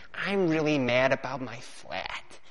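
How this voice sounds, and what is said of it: Put-on American accent. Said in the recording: “I'll put an American accent,”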